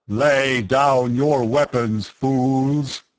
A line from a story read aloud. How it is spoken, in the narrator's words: the amplified voice boomed